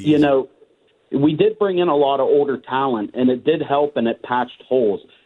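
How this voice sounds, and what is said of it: Slight hockey-style accent. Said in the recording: “He has a little bit of that hockey accent”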